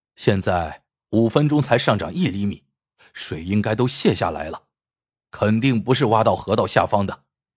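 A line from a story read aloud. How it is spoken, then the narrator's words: Low, deep voice. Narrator (Chinese): 大志沉声说道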